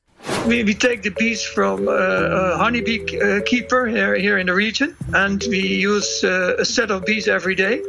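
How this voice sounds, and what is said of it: Dutch accent. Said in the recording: “he's got a very uniquely Dutch accent.”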